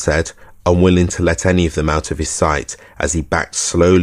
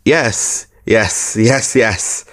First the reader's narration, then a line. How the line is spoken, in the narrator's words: the solicitor said, and giggled again